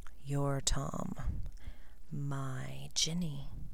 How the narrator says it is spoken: he whispered

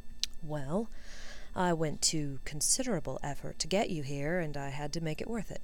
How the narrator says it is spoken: he said calmly

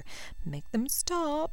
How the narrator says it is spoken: she whimpered

